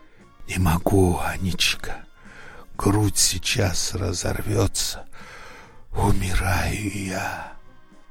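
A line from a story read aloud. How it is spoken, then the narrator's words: Whisper. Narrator (Russian): Прошептал Матвей Ильич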